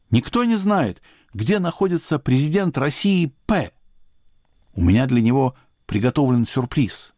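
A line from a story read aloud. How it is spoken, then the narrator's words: Loud question. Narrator (Russian): Я громко спросил публику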